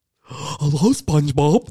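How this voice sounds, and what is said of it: Cartoon character voice. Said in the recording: “Do a Patrick voice”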